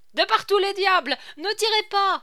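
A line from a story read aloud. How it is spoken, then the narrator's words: Half-choked yelling. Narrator (French): hurlait Bringuenarille à demi suffoqué par les bras nerveux de Scapin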